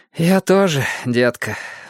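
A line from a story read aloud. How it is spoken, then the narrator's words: Sighing. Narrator (Russian): вздохнул Льюис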